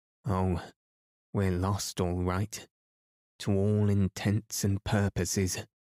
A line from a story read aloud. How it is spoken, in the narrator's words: moaned Ilse